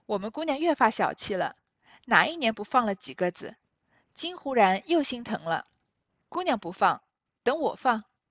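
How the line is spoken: Laughing. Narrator (Chinese): 紫鹃笑道

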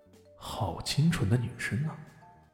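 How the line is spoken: Inner admiring sigh. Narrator (Chinese): 李炫不禁心中一动，暗叹道

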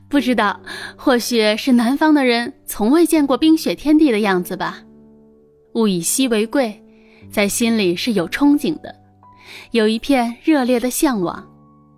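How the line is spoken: Cheerful laughter. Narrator (Chinese): 欢笑着说

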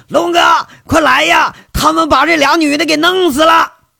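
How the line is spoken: Hoarse male shout. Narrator (Chinese): 男生，嘶着嗓子喊着

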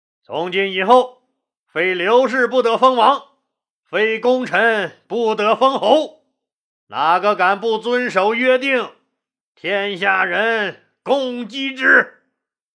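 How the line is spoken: Loud proclamation. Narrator (Chinese): 刘邦高声说道

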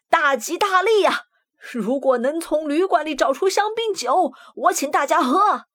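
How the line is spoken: Excited loud shout. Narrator (Chinese): 鸟老板兴奋地大声喊道

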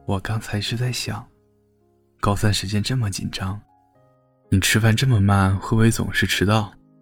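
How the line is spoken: Soft, yielding. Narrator (Chinese): 江时宴终于在他的目光下败下阵来，轻声说

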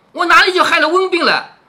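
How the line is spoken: Angry coughing shout. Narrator (Chinese): 晴雯只管咳嗽，气得喊道

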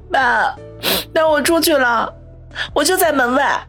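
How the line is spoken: Choked, tearful. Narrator (Chinese): 苏辛迪又是伤心又是莫名其妙，难过的，哽咽的，带着哭腔说

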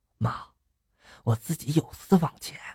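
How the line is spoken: Moved, quiet. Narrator (Chinese): 感动的，小声的就说了

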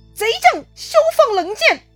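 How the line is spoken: Urgent shout. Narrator (Chinese): 关平赶紧大喊

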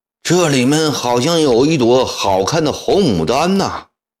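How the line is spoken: Loud. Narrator (Chinese): 大声说

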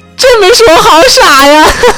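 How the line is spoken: Laughing. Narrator (Chinese): 三只青蛙都忍不住哈哈大笑起来

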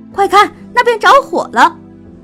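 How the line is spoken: Shouted. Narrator (Chinese): 喊

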